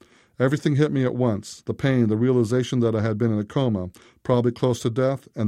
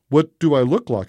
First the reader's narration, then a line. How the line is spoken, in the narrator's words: I blurted out